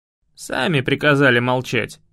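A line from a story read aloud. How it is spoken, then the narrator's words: Snort. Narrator (Russian): фыркнул я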